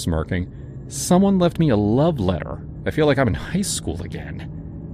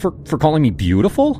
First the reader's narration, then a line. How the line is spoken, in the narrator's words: I scoffed